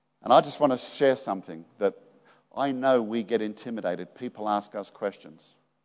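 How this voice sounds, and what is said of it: Australian accent. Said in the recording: “I've got this really neat Aussie accent”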